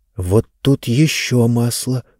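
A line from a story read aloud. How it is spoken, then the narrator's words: Mumbled. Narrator (Russian): бормотала Занна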